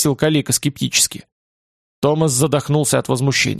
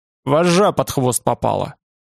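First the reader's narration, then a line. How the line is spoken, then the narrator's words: Irritated explanation. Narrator (Russian): объяснил Олег раздраженно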